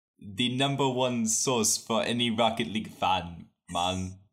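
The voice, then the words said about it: Silly put-on Jamaican accent. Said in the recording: “read it in a silly, ridiculous accent ... you are going to read this in the accent of a Jamaican ... read the review with a Jamaican accent”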